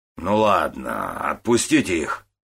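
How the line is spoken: Grumbling leader. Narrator (Russian): проворчал главарь

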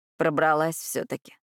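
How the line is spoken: Sullen mutter. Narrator (Russian): пробурчал он хмуро

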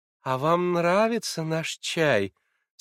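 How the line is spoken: Sweet honeyed voice. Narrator (Russian): спросила медовым голоском Александра Семеновна

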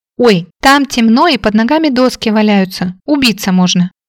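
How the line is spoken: Worried cry. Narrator (Russian): обеспокоенно вскрикнула Молли

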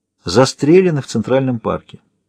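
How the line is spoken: Quiet. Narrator (Russian): говорит Уорд тихо

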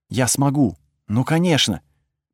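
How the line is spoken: Soft female whisper. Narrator (Russian): прошептала она

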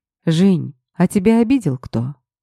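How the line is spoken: Unnaturally soft question. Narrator (Russian): Как-то неестественно мягко спросил босс

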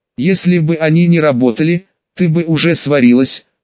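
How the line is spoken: Choked, strained voice. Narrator (Russian): задушенно выдавил проводник

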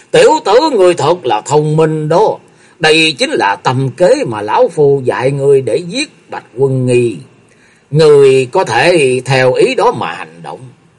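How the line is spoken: Loud laughing speech. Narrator (Vietnamese): Hàng Đàm Tẩu mặt thoáng biến sắc, cười lớn nói

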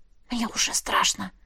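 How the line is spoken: Whisper. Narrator (Russian): шепнула я

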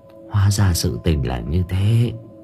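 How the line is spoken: Old woman sighing. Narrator (Vietnamese): bà cụ thở dài

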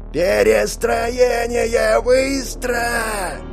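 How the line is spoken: Yell. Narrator (Russian): Заорал Филлер

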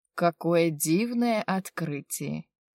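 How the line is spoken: Sigh. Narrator (Russian): вздохнул

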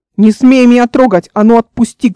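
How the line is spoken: Shouting. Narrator (Russian): кричала Эл

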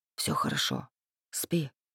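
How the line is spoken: Whisper. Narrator (Russian): шепнул Рейф

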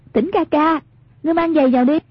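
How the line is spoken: Amused calling out. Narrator (Vietnamese): Hoàng Dung không khỏi thấy buồn cười, bèn kêu lên

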